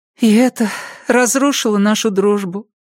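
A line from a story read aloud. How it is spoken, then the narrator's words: Sorrowful sigh. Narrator (Russian): горестно вздохнула она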